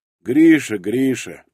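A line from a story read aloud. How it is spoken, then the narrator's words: Muttered. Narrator (Russian): пробурчал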